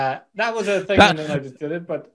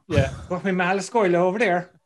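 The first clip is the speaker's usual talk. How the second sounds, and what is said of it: Exaggerated, badly done Irish accent. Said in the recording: “an Irish person doing a terrible Irish accent”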